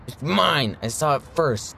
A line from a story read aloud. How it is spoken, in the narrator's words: The other boy angrily says